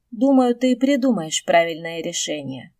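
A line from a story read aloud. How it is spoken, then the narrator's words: Purring. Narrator (Russian): мурлыкнул дракон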